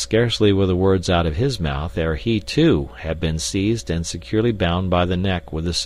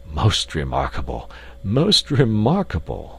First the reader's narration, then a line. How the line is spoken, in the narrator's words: gasped the professor